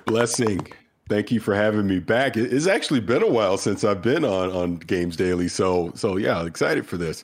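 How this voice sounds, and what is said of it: Nasal voice, has a cold. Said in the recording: “A little under the weather ... I sound a little nasally, been battling a cold this week ... don't worry about sounding nasally”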